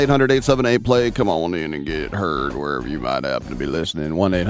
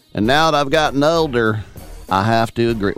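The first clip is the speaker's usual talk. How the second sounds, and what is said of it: Put-on Southern accent. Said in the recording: “Why do you got to be a Southern accent? ... Just seems funny to do it in a Southern accent.”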